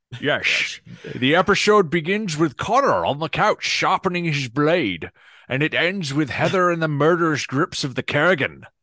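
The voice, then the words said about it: Put-on Scottish-sounding accent. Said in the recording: “You're trying to do this in the accent the whole time ... You're turning into a Scotsman ... a little bit of Egyptian in there with a touch of Spanish”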